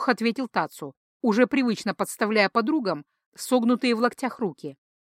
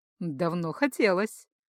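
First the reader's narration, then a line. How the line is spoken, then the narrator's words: Purring. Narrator (Russian): мурлыкнула Делингс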